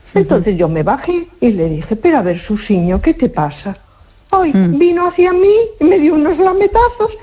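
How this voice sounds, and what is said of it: Galician Spanish accent. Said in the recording (Spanish): “como eres gallega y le hablas con ese acento”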